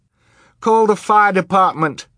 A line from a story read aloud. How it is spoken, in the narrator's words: Violet cried desperately